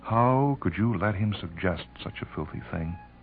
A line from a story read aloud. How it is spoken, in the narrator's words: He laughed bitterly